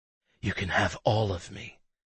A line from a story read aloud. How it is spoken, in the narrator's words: her voice breathy